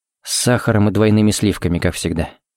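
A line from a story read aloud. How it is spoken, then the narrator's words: Quiet. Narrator (Russian): сказал тихо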